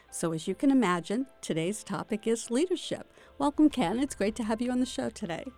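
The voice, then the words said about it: Polished radio announcer voice. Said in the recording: “you're speaking in your radio voice.”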